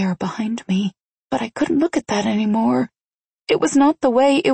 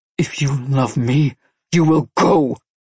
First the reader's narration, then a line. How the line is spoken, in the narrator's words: she growled harshly